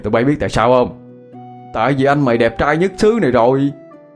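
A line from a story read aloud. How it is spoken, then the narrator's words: Proud loud laughter. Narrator (Vietnamese): Hai Bình được nước tự hào, cao giọng cười to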